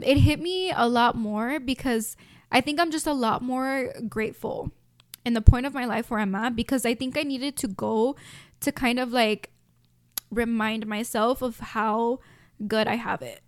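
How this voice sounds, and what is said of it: Emotional, tearful voice. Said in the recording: “oh my God, why am I getting emotional? ... let me take a break, hold on. Let me get some water”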